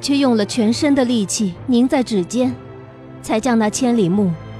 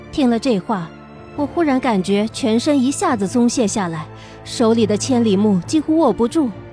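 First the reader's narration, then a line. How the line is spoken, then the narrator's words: Sighing. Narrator (Chinese): 乌木齐在一旁叹息道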